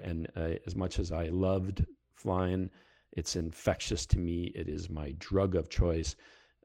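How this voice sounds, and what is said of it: Heavy Canadian accent, Fargo-like. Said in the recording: “my accent is coming back very heavily these days ... go watch the movie Fargo and you'll figure me out pretty quickly”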